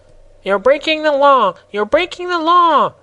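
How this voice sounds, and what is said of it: Squeaky character voice. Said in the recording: “cried in his squeaky voice”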